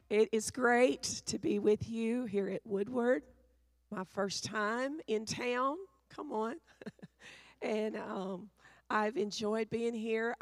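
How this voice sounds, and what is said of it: Rough, affected voice. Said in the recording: “apologize for my voice... I'm going to sound very Pentecostal... the allergies... that's all this sound”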